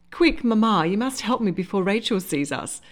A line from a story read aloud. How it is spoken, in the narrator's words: said on a laugh, forcing the words out through the pins